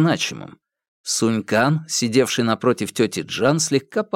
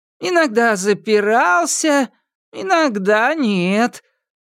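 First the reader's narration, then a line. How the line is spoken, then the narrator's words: Drawn-out drawl. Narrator (Russian): протянула тетя Джан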